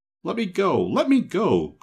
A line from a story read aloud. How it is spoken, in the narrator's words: cried the boy, struggling angrily